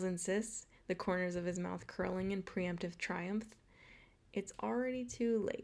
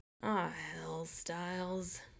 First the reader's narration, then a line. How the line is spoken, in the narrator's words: groans, in stern judgment